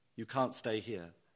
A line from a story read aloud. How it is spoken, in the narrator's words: he said quietly